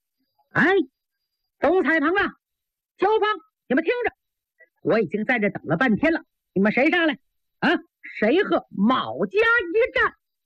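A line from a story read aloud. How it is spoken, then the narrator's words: Shouting. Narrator (Chinese): 台上有人喊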